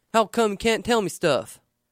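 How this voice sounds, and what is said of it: Mocking put-on accent. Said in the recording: “Sorry, God, that accent.”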